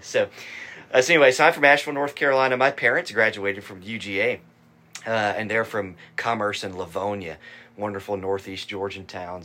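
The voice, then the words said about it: Southern US accent. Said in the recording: “you might be surprised to learn when you hear my accent that I'm from a state with North in its name”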